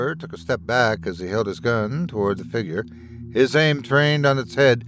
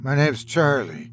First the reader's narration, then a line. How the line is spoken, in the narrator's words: he replied timidly, speaking in the voice of a small child